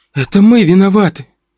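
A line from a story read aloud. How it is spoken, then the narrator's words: Tearful speech. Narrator (Russian): сквозь слезы сказала я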